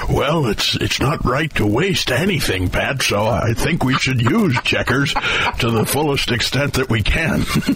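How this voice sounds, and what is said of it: Imitates another person's voice. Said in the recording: “that's my Richard Nixon impersonation. I think that's everybody's Richard Nixon impersonation.”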